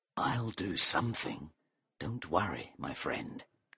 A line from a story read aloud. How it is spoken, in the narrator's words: said under his breath